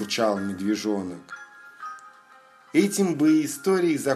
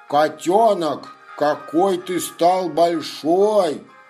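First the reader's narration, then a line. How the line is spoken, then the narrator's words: Surprised exclamation. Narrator (Russian): удивленно воскликнул Лапа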